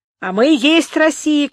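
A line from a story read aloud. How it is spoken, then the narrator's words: Group shouting. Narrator (Russian): кричали красногвардейцы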